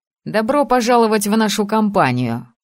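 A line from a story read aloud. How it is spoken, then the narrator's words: Wry snort. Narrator (Russian): хмыкнул Асакура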